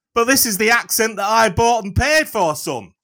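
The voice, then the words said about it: Put-on northern English accent. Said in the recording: “I spent money to buy this northern accent.”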